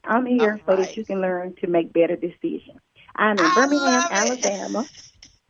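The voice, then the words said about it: Cute-sounding Southern Belle accent. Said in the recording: “I love your voice. You're so cute. I love it. It is a powerhouse behind that cute voice. I love a good Southern Belle accent”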